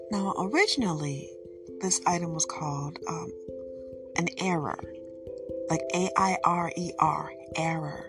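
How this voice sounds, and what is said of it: Speaks with a regional accent. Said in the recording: “my accent is coming through for some of you, and this is not how you would pronounce it ... this is how my accent is”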